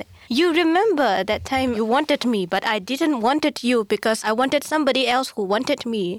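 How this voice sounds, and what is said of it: Put-on African accent. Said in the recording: “There's this woman with an African accent.”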